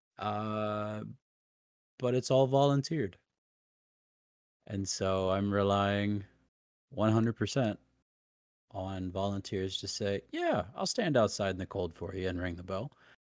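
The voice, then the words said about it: Slightly hoarse, partly lost voice. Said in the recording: “I've lost my voice a little bit because it is cold up here”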